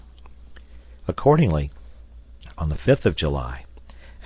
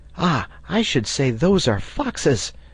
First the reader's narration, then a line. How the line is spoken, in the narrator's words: cried Herbert